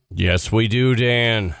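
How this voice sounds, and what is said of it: Announcer voice. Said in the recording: “Is that your new Nick announcer voice?”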